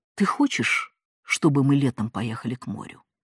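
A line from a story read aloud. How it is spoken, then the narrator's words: Same even tone. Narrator (Russian): сказала она на той же ноте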